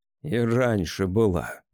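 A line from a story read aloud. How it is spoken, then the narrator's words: Grumble. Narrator (Russian): проворчал я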